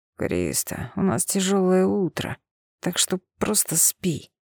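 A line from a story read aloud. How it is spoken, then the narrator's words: Grumbled. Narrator (Russian): проворчал он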